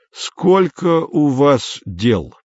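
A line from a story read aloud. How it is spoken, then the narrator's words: Plain. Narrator (Russian): спросил шеф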